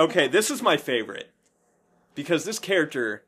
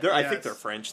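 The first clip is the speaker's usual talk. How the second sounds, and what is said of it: Bad put-on French accent. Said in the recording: “That was a terrible French accent.”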